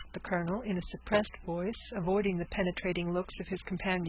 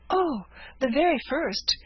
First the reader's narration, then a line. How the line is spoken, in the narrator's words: exclaimed the eager girl